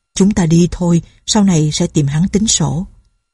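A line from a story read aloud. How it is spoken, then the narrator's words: Soft. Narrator (Vietnamese): Đặng Bá Công nói khẽ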